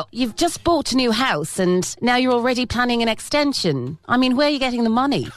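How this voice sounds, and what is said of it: Unconvincing put-on accent. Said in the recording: “my accent was so dodgy”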